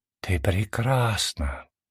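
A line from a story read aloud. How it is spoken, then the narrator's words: Whisper in the ear. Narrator (Russian): прошептала ей на ушко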